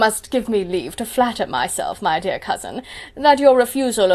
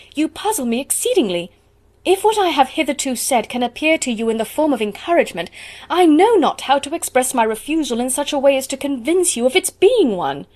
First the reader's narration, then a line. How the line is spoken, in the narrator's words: cried Elizabeth with some warmth